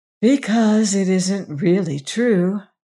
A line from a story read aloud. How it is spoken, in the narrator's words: with a sigh